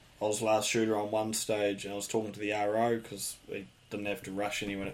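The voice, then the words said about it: New Zealand accent. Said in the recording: “that's a unique accent. Where are you from? What part of the world? ... I'm from New Zealand.”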